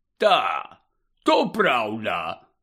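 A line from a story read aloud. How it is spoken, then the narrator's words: Hoarse rasp. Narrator (Ukrainian): прохрипів він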